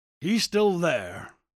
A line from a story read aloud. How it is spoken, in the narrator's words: grunted Buckner